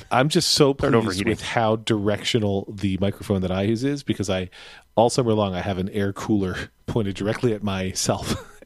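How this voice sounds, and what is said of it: Smooth radio-announcer voice. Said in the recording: “You have a very good radio voice,”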